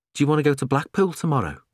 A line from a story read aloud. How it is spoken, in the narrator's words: Stan asked